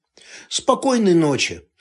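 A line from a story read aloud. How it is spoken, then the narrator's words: Gloomy. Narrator (Russian): мрачно сказал Турецкий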